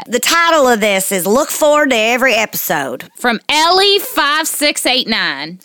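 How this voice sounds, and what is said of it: Put-on Southern accent. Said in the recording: “I'm going to do this one with a Southern accent.”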